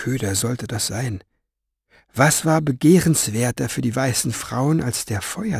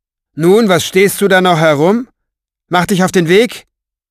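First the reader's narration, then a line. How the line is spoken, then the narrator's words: Calling down. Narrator (German): rief zu ihm herunter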